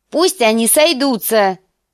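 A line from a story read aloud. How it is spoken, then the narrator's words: Shouted. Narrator (Russian): крикнул лорд Роберт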